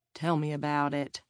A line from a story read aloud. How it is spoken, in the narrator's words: Garth murmured